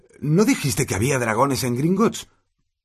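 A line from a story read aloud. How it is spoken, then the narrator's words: Panting while running. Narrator (Spanish): dijo Harry jadeando un poco mientras correteaba para seguirlo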